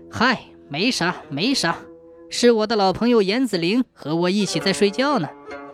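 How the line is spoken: Light chuckle. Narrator (Chinese): 刘秀却笑笑说

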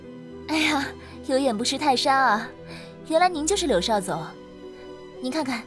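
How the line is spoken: Smiling, ingratiating. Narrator (Chinese): 含笑盈盈

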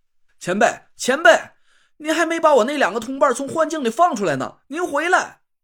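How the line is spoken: Anxious shout. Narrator (Chinese): 急得朝着鸾鸟的身影就大喊了起来

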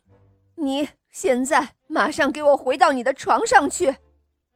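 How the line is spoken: Angry shout. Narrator (Chinese): 大猴子生气的叫了起来

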